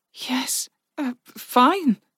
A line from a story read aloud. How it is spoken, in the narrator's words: Virka said breathlessly